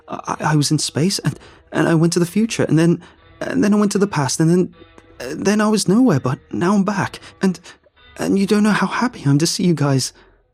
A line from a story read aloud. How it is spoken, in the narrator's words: I blurted